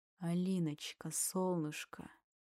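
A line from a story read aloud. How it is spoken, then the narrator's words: Through clenched teeth. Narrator (Russian): Стиснув зубы, процедил Тимур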